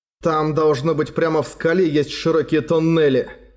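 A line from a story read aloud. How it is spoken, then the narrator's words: Plain. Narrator (Russian): сказал он Сапфире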